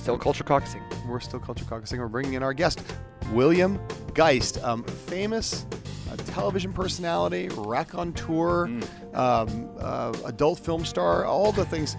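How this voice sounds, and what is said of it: Quiet, subdued, tired voice. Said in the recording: “your NPR voice on the podcast because it's not your usual volume, which is ... louder ... slightly louder ... just so exhausted that this is really pretty much the best I can do”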